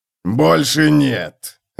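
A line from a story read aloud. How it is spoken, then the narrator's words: Bark. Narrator (Russian): рявкнул Готрек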